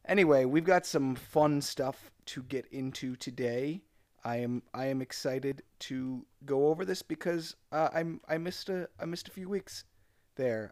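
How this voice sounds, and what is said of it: Voice still sounds sick. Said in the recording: “I'm coming back from some sickness. Maybe you can still hear that in my voice.”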